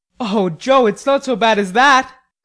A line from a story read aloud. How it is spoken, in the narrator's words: cried Laurie with a startled face